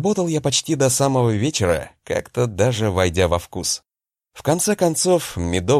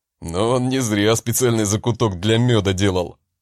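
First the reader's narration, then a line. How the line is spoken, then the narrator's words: Chuckling. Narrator (Russian): хохотнул Харальд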